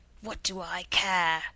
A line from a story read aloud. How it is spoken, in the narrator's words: sneered old Cloven Hoof